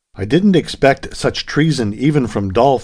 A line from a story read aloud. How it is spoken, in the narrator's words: exclaimed the young American